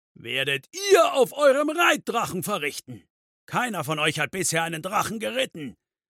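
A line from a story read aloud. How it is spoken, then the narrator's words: Thundered on. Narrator (German): donnerte weiter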